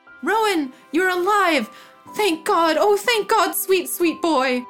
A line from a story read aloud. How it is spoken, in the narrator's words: shouted